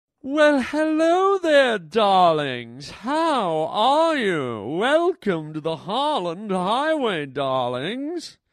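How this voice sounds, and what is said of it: Silly put-on character voice. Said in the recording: “I don't know who that was. Well, it was me doing a stupid voice.”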